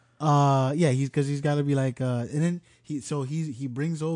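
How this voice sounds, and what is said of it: Usual voice. Nothing is said of it.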